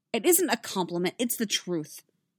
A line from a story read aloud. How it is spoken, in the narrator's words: snapped